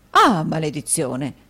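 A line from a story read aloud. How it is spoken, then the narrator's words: Dismayed exclamation. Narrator (Italian): esclamò il signor Mantalini, che allungò considerevolmente il viso a quella proposta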